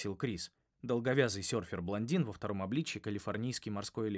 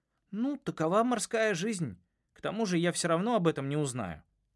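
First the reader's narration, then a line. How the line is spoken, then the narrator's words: Objecting. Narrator (Russian): возразил Линус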